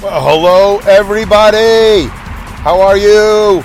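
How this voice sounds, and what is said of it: Loud yelling announcer voice. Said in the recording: “Why am I yelling? Why am I doing this voice? ... That's like an announcer voice.”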